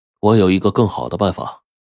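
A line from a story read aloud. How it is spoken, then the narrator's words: Cold. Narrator (Chinese): 他冷冷的对他哥说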